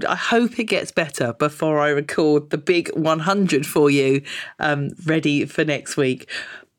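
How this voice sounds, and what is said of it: Congested, bunged-up voice. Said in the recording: “I am sounding a little bit bunged up today because I've got a bit of a cold.”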